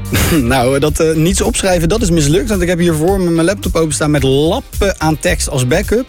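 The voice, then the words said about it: Rotterdam Dutch accent. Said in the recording (Dutch): “Lekker Rotterdams ... mijn Rotterdams accent”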